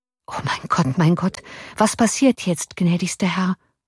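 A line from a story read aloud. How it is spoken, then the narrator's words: Murmured. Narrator (German): murmelte der Offizier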